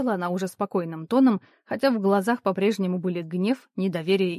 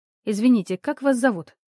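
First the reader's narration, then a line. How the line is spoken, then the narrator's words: Calm question. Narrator (Russian): спокойно спросила я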